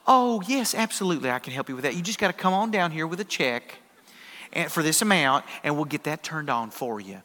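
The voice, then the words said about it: Imitated sweet Arkansas woman's accent. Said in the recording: “this sweet little gal with an Arkansas accent”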